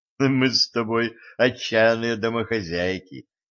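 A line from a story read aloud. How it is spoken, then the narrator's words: Laughing. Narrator (Russian): рассмеялся стажер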